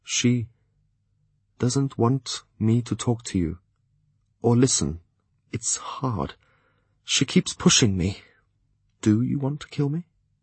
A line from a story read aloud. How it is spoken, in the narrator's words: added hesitantly